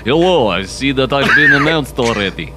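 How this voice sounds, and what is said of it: Weird put-on Russian accent. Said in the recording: “a pregnant lady with a weird Russian accent”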